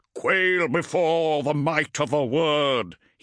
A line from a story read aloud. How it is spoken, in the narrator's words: bellowed, voice metallic and resonant through the augmetics